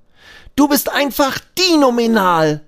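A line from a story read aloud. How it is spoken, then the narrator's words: Called out. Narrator (German): ruft Abi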